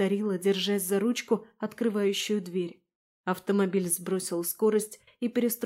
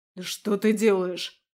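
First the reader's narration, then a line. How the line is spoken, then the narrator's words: Werewolf's growl. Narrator (Russian): рыкнул оборотень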